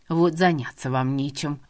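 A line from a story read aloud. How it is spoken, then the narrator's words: Grumbling. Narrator (Russian): ворчала в дороге Инесса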